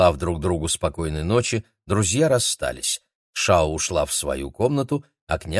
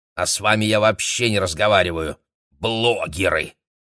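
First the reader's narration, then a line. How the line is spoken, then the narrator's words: Contemptuous snort. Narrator (Russian): презрительно фыркнула Мэйли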